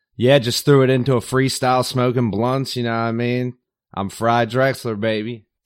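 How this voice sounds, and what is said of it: Baltimore accent with a Southern sound. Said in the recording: “fantastic accent, he's one of us, although with a bit more of a Baltimore spin ... a Baltimore accent ... more like a Southern accent ... a lot of people tell me I sound like a Southerner”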